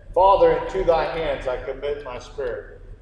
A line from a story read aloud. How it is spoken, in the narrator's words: He cried out in a loud voice and said